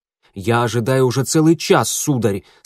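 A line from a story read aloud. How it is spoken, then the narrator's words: Rather angry. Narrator (Russian): сказал поэт довольно сердито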